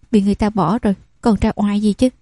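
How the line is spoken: Angry muttering. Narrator (Vietnamese): Biểu muội tức giận lẩm bẩm

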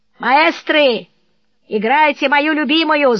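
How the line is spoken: Drunken shouting. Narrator (Russian): Осушив очередной бокал, господин кричал

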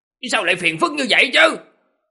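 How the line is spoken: Madman's howling. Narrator (Vietnamese): tiếng gào thét của người điên kia

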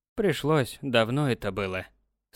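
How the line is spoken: Old man's sigh. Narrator (Russian): старик вздохнул

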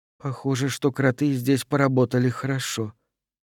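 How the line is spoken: Muttered. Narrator (Russian): пробормотала Хейвард

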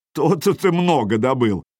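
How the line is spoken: Loud laughter. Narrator (Russian): захохотал Харальд

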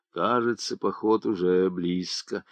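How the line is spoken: Group speaking in undertones. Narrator (Russian): Сидевшие заговорили вполголоса

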